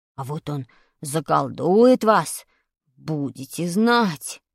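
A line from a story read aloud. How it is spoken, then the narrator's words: Weak voice. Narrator (Russian): сказал слабым голосом Вадик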